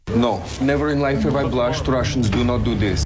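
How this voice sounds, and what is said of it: English with a put-on Russian accent. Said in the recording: “That's a Russian, yes. ... He's not Russian. ... He's from Texas. ... not just the accent”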